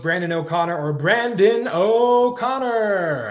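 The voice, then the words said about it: Bad Michael Buffer announcer impression. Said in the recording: “the bad Michael Buffer impression”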